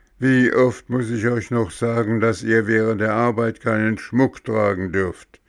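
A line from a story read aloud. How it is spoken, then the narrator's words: Thundering voice. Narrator (German): donnerte der Nikolaus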